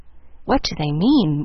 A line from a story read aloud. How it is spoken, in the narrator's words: whispered Mary to Jill